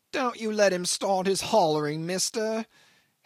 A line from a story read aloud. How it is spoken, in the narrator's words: hailed from afar the accident case in a distressed, angry shout that came ringing between the walls like a quavering call down a tunnel